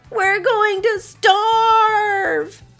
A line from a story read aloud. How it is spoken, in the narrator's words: They exclaimed together and broke into sad sobs